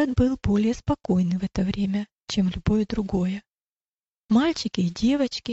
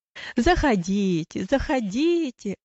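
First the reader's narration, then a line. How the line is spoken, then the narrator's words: Joyful exclamation. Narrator (Russian): радостно восклицал он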